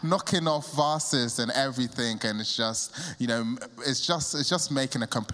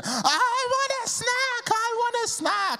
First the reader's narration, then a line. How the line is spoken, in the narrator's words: the kid is basically chanting, screaming